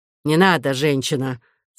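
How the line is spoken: Angry. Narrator (Russian): сказал он сердито

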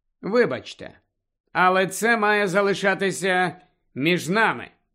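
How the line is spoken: Plain. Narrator (Ukrainian): відповів Гаррі

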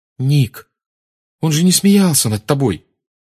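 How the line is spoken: Exclaimed. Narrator (Russian): воскликнула Гермиона

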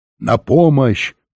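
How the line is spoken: Guard shouting. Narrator (Russian): крикнул охранник

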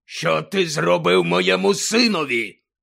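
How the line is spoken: Menacing growl. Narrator (Ukrainian): загрозливо прогарчав він

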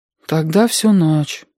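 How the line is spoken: Sad. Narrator (Russian): печально сказал Сашка

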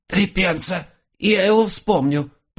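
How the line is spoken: Hoarse wheeze, raccoon. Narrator (Russian): просипел енот

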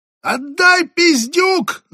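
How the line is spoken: Shrieking. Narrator (Russian): завизжала тень

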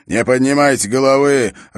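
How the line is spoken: Growl. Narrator (Russian): рычал Эрок на своих гребцов

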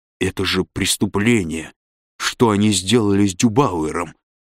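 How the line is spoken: Through gritted teeth. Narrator (Russian): произнес он сквозь зубы

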